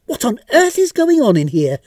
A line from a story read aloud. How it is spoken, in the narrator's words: exclaimed Mrs